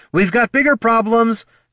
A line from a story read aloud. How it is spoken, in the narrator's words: shouted Katha